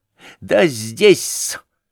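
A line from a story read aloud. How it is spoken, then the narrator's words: Sudden laugh. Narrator (Russian): засмеялся вдруг Лебедев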